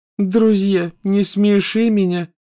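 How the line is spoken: Contemptuous, through clenched teeth. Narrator (Russian): презрительно процедила Лаванда

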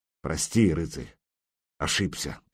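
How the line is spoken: Muttering. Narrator (Russian): пробормотал он

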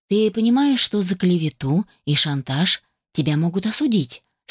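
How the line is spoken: Indifferent tone. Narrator (Russian): спросила ее равнодушным тоном

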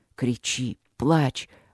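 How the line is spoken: Hoarse, spoken against lips. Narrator (Russian): говорил он хрипло мне в губы

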